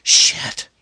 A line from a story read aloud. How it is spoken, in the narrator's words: Amy hissed